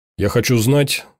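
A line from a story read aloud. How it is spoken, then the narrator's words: Plain. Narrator (Russian): сказал он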